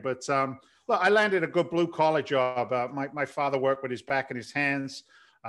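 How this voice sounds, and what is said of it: London English accent, slight Boston twang. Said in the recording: “So it's not a Boston accent? ... Well, there's a little bit of Boston attached to it ... you can't help but pick it up a little bit of the twang”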